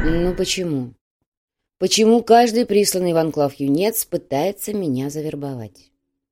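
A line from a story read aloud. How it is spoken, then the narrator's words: Sighing. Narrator (Russian): Грязнов вздохнул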